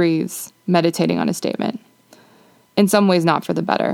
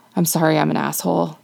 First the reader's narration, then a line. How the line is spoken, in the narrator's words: he mutters